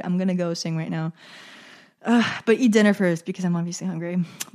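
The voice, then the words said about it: Tired voice. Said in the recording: “My voice is tired.”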